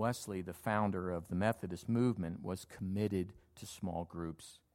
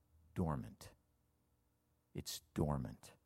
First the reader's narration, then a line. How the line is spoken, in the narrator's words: under his breath, he says